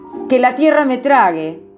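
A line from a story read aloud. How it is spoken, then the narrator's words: Frightened exclamation. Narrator (Spanish): Sintió miedo y exclamó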